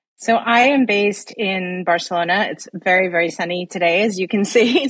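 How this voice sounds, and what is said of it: Non-native accent. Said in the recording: “I've been living in Barcelona now for nearly 10 years, in Europe for almost 15 now. So yeah, quite a long time, as my accent would divulge.”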